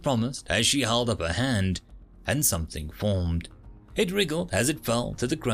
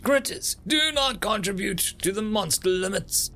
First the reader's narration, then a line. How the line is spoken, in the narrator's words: she yelled